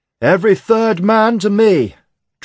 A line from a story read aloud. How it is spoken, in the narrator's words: Dressel roared over the wind